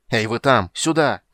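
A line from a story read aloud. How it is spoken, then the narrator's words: Shout to guards. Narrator (Russian): крикнул Карамон, обращаясь к стражникам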